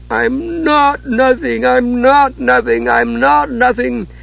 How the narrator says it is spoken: was sobbing over and over

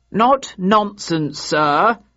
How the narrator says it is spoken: replied in a clear voice

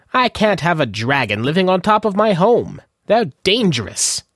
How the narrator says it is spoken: Wendell said miserably

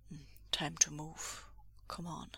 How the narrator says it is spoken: Bending down close to talk softly, Lan Wangji says

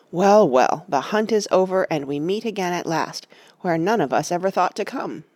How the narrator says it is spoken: said Aragorn

